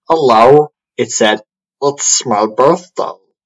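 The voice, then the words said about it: Gollum impression. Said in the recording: “now I'm gonna have to do a Gollum voice.”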